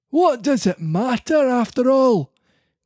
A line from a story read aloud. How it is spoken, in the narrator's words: cried Geppetto all at once